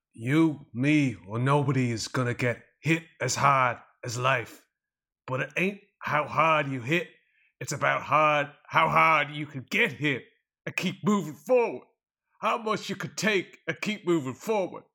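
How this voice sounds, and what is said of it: Imitates a movie character's voice. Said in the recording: “I am going to put on a Rocky accent and I'm going to deliver a quote from Rocky”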